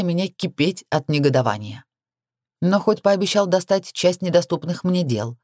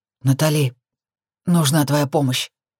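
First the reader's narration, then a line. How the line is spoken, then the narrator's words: Hoarse voice. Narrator (Russian): произнес он хрипло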